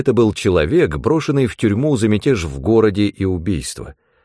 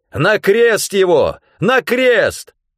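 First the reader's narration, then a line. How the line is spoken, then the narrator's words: Crowd shouting. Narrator (Russian): Но они кричали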